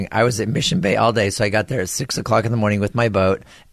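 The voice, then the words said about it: Hoarse voice. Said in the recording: “I'm hoarse today ... How'd you lose your voice?”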